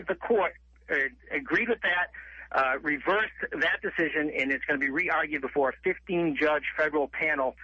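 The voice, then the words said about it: Slight Massachusetts twang. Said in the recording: “you don't sound like you're a Michigander. Where's that accent? ... I grew up in Massachusetts. ... you have a little bit of that twang to you.”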